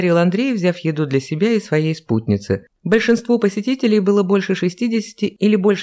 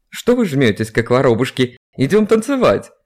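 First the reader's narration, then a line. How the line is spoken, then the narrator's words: Shouting. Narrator (Russian): крикнул Лев Константинович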